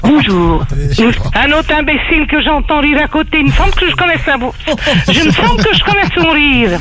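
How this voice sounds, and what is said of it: Burgundy Morvan regional French accent. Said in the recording (French): “Oh, mais c'est la Bourgogne. ... J'ai reconnu l'accent. ... c'est le Morvan ... je vais pas annoncer mon accent”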